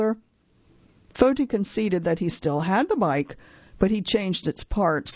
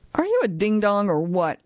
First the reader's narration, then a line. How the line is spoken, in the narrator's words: asked the Frenchman